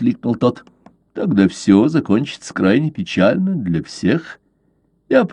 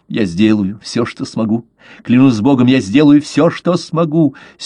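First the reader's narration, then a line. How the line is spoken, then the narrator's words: Ardent youthful exclamation. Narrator (Russian): с юношеской горячностью воскликнул дон Эстебан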